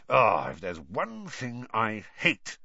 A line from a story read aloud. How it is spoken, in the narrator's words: he muttered, more to himself than Harry